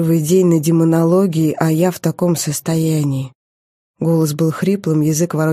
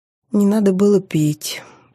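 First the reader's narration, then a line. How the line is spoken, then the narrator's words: Moaning. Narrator (Russian): простонала Мита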